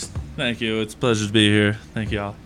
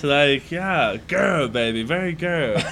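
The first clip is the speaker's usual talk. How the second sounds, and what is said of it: Imitates Goldmember character voice. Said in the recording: “Goldmember impersonation”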